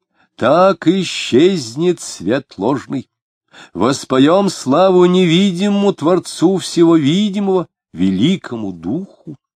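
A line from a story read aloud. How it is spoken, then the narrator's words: Loud and stern. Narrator (Russian): Марина громко и сурово сказала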